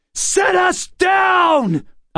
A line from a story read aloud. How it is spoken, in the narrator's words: I shouted, but what came out was English